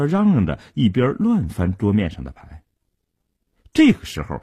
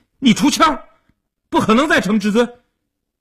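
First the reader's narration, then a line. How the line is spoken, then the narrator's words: Anxious loud shout. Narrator (Chinese): 阿生一看急了，大声地嚷道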